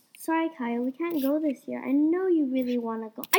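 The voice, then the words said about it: Calm voice. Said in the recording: “in a calm voice”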